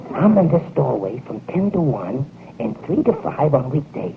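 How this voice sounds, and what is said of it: Whispering, hoarse voice. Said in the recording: “Why are we whispering?... Laryngitis.”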